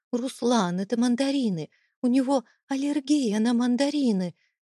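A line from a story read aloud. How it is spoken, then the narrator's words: Panicked breathless. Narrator (Russian): Выдохнула я, чувствуя, как внутри поднимается паника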